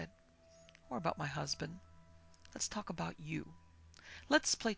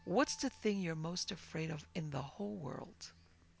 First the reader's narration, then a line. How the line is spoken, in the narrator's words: Burton chuckled